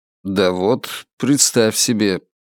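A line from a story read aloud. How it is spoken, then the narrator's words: Muttered. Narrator (Russian): пробормотал он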